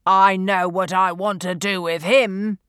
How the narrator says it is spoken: Mace boomed

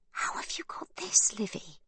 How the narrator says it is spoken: whispers

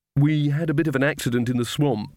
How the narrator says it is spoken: said Magrat quickly

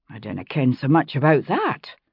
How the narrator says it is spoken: Amy muttered darkly

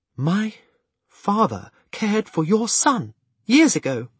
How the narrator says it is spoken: she eagerly asked

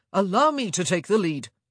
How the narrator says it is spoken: he boomed

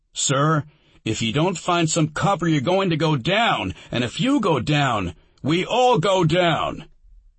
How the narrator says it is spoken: He shouted over the racket of the firefights

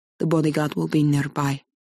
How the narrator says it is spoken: Alex murmurs into her ear

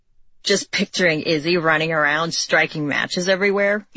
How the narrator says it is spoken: he snorted

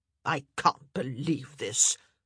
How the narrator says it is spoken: Lady Danbury said, with a loud snort of disgust

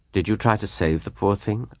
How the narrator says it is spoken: asked Laura earnestly

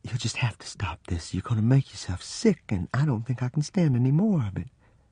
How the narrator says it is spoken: she said in a quavering voice

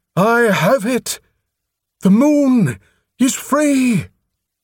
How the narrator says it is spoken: Prothol cried over the din

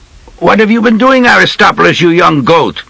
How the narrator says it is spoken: called out

